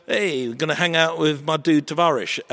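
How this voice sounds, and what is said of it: Convincing put-on Russian accent. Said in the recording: “That Russian accent. That was bang on.”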